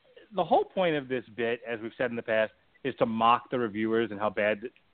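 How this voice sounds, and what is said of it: Usual voice. Nothing is said of it.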